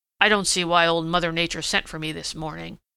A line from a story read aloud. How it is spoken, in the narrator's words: he grumbled